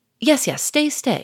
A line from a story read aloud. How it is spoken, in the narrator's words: said Monsieur Gournay-Martin hastily